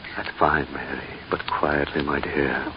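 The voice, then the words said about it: Whispering. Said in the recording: “Why the whisper”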